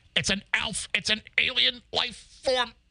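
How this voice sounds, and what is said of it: Impression of a TV sitcom character. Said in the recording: “my Willie Tanner impression.”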